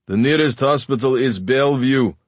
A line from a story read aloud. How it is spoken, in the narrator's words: he shouted to Idelba with unnecessary volume